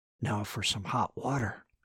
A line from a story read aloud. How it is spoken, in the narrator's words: he whispered